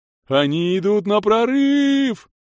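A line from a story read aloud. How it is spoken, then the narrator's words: Wild ecstatic yell. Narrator (Russian): В диком восторге завопил рыбак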